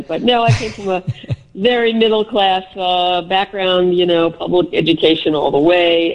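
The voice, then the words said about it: Slight Bronx accent. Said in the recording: “Can you tell that I have a Bronx accent? ... A little bit.”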